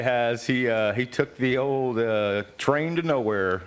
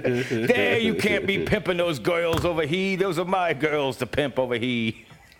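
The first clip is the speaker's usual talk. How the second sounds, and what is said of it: Put-on New York accent. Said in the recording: “my New York accent”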